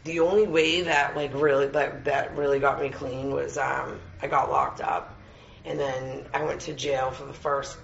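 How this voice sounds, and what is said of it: Tired, worn-out voice. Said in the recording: “my voice is like, I'm wicked tired.”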